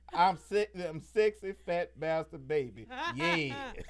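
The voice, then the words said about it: Comic character voice. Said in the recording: “in my fat bastard voice.”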